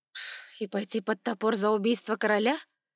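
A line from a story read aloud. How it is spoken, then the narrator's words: Scornful snort, hidden fear. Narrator (Russian): фыркнула я, а сердце на миг кольнуло страхом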